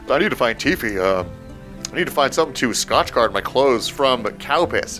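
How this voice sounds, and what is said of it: Deep character voice. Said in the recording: “I love your new deep voice.”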